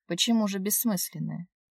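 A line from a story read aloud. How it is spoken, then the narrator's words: Guilty sigh. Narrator (Russian): Вздохнул, чувствуя себя еще больше сволочью в ее присутствии, нежели обычно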